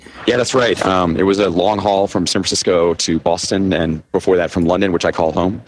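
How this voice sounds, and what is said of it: Worn, hoarse voice. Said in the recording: “my voice is a little shot from all the shows that I've been attending this week”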